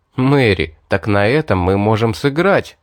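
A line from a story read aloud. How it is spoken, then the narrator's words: Cheerful. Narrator (Russian): весело проговорил я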